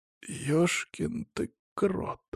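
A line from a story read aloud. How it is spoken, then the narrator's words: Sighing. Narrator (Russian): вздохнул он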